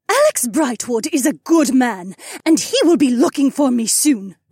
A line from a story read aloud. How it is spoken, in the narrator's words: Vel said in a defiant tone